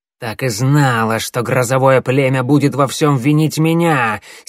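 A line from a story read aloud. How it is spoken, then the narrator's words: Angry hiss, old woman. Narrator (Russian): сердито прошипела старая целительница, сверкая глазами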